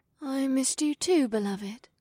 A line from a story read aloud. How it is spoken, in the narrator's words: my wife said in a sleepy voice